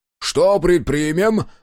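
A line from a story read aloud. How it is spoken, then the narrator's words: Shout. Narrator (Russian): выкрикнул Дозер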